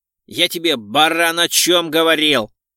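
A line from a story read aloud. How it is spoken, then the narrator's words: Bark. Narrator (Russian): рявкнул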